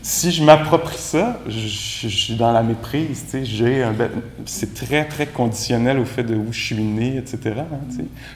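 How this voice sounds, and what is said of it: Québécois French accent. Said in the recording (French): “c'est très québécois, cette affaire-là ... C'est vrai qu'il y a un accent. ... il est reçu pour plusieurs comme charmant”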